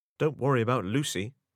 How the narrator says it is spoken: said Meg

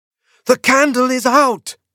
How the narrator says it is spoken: I shrieked

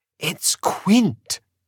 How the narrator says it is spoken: whispered

